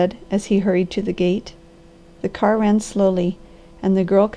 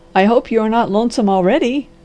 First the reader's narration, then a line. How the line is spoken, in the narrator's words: laughed the doctor